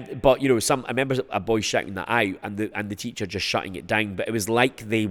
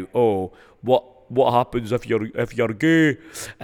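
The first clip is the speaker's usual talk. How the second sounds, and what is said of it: Put-on Dundonian Scottish accent. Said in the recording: “That was a Dundonian accent”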